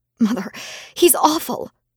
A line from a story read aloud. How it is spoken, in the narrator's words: I pleaded